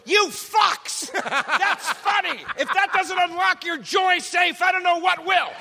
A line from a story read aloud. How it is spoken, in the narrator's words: he's screaming at the audience